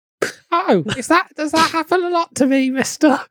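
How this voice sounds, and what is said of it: Tiny Tim child character voice. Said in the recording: “Now he's tiny Tim from A Christmas Carol.”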